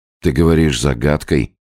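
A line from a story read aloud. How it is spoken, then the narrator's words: Calm. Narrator (Russian): все так же спокойно продолжал Иван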